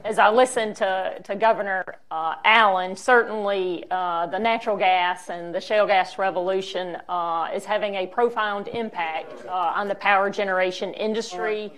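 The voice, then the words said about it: Southern American accent. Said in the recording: “I do have a Southern accent”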